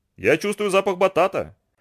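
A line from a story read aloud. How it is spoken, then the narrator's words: Joyful sniffing. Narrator (Russian): радостно принюхался Ананси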